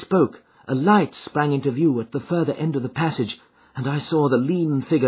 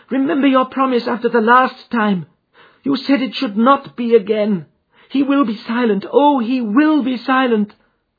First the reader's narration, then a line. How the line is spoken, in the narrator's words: she cried in England